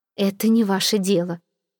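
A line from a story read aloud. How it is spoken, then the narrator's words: Trembling voice. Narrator (Russian): дрожащим голосом ответила Мадлена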